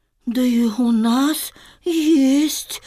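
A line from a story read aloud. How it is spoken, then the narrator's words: Sighing. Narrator (Russian): вздохнула Маша Репка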